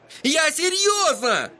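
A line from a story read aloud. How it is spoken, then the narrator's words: Yelling. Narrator (Russian): завопил Эдди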